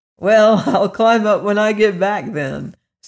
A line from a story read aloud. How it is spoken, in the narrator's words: said the boy with a laugh